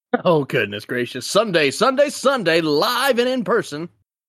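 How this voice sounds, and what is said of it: Over-the-top announcer-style hype voice. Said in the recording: “In that same voice that you just did that, could you go Sunday, Sunday, Sunday? ... A little bit extra ... just for that voice”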